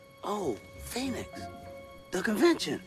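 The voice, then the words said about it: Whispering. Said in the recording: “Why are you whispering”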